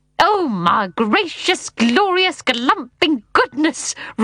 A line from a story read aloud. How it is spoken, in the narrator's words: roared Mr